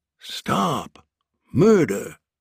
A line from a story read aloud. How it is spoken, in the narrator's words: he whispered aloud